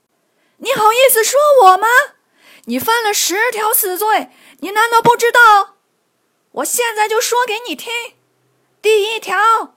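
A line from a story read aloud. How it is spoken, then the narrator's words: Shouting. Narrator (Chinese): 刘邦上前喊道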